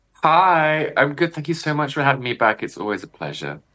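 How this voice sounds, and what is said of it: British accent. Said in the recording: “listening to his accent, you'll realize he's not from Canada. He's actually from across the pond in the UK”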